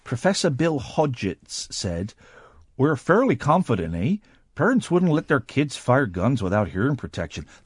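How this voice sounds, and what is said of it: Put-on Canadian accent. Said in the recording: “That is a good Canadian accent. ... That is a good Canadian accent. ... That is an excellent Canadian accent.”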